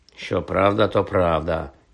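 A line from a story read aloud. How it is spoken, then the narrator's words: Muttered. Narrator (Ukrainian): пробурмотів Джордж Візлі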